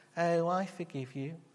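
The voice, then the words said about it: Pathetic, wimpy voice. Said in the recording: “in a really pathetic, wimpy voice”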